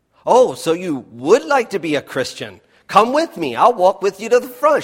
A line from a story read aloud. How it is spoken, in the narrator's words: said excitedly